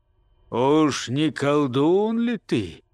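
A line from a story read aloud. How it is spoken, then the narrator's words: Gloomy old man's question. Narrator (Russian): спросил дед, мрачно глядя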